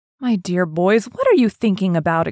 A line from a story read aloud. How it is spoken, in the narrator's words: exclaimed Mrs